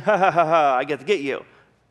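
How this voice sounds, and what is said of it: Evil villain laugh. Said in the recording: “Is that a good imitation of an evil laugh?”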